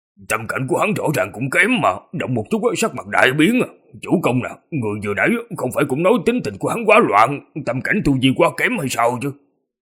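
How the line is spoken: Low voice. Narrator (Vietnamese): nhỏ giọng nói

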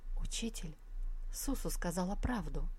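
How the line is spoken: Barely audible. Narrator (Russian): Девушка проговорила еле слышно

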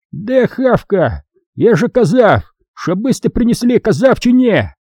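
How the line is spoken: Loud yelling. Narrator (Russian): Носорог орал на всю палатку

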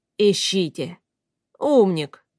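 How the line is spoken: Angry snort. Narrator (Russian): гневно фыркнул мастер Ньерс

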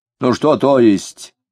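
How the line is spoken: Angry reply. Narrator (Russian): сердито откликнулся Дронов

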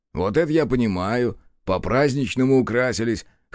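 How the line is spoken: Wry grunt. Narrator (Russian): хмыкнул Бучило

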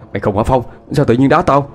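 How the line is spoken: Annoyed. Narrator (Vietnamese): anh nói với giọng bực mình

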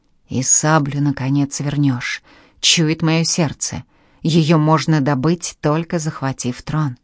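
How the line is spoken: Hunched man's whisper. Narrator (Russian): скрюченный Мустафа-ага прошептал

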